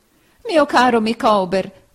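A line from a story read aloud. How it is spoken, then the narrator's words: Wife exclaiming. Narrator (Italian): esclamò sua moglie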